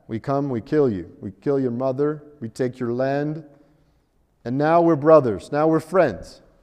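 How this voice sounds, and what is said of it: Poor put-on Russian accent. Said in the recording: “think about the Russians again ... That's a terrible accent.”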